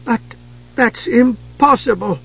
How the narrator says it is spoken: Palin cried

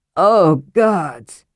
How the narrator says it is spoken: Caraman groaned

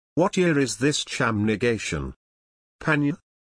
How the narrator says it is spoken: Guthrie asked

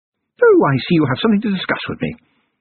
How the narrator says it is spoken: said, rather more brightly than warranted

